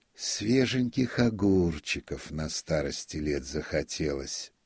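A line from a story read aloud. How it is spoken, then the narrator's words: Singsong voice. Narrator (Russian): заговорил он певучим голосом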